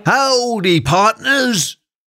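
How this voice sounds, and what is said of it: Poor old Western movie cowboy accent. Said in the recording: “I'm not very good at accents, as you've just heard, but that was my attempt to sound like someone from an old Western movie”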